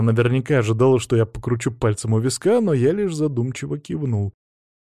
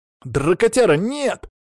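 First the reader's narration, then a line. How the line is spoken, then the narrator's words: Sudden exclamation. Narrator (Russian): вдруг воскликнул Макс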